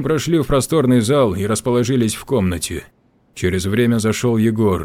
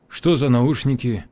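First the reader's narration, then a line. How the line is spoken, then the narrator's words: Calm inquiry. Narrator (Russian): Спокойно поинтересовался Кожин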